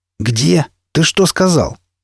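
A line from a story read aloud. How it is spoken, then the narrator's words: Hoarse wheeze. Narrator (Russian): На чистом русском захрипел он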